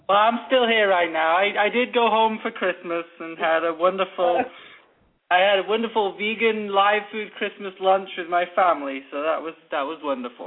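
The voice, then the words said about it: English accent. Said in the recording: “that fine English accent. It's a beauty to listen to.”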